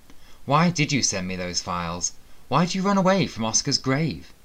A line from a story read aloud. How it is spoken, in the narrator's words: Sebastian faltered, confused